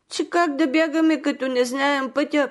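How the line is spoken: Children crying. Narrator (Bulgarian): проплакаха децата

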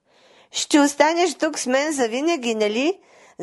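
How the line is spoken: Laughing. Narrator (Bulgarian): засмяла се принцесата

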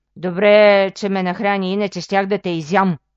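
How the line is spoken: Dwarf growling. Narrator (Bulgarian): Изръмжало джуджето

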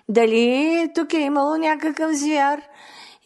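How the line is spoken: Angry questioning. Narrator (Bulgarian): Ядосал се много царят, започнал да ги разпитва

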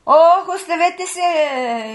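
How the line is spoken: Dazed shout. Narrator (Bulgarian): извикал той, като дошъл на себе си

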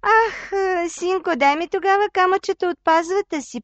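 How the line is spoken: Old woman pleading. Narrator (Bulgarian): помолила бабата

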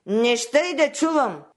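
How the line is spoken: Angry shout. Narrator (Bulgarian): викнал гневно бащата

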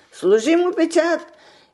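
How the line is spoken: Small muffled voice shouting. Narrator (Bulgarian): извикало гласчето изпод братата

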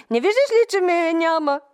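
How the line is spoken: Shout near happy tears. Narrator (Bulgarian): извика той и едва не заплака от щастие

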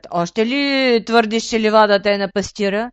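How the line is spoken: Growling. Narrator (Bulgarian): Изръмжал вълкът

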